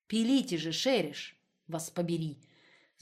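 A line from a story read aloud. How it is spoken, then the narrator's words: Growled. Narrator (Russian): зарычал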